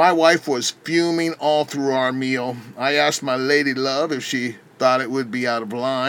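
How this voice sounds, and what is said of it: Usual voice. Nothing is said of it.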